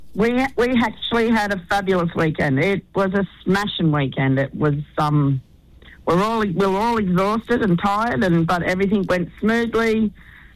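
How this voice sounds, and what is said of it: Hoarse voice. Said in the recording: “you sound a bit hoarse ... I'm a bit hoarse”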